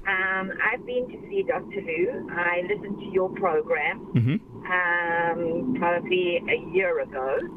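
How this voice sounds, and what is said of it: Noticeable accent. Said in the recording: “I remember you from your accent”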